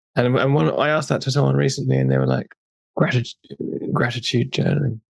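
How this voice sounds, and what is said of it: Posh, articulate English accent. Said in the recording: “you have a very posh accent, you know, up in Sheffield ... you sound very, you know what I mean, articulate when you speak”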